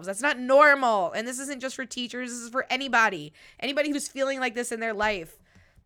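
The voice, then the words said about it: Slightly nasal voice. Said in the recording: “you could probably hear in my voice, like I said, I'm a little nasally. I think it's just allergies”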